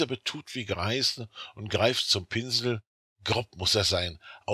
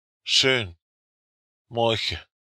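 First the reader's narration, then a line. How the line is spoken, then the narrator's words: Exclaiming. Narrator (German): ruft aus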